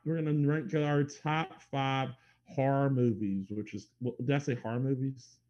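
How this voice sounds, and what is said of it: Heavy accent dropping R sounds. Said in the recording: “That was a heavy accent that you used with that... you took out like all the R's in that statement.”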